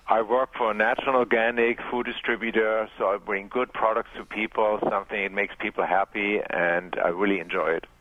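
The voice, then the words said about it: German-accented English. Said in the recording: “I'm called the ... because of my accent, and people say it reminds me of somebody who lives in California”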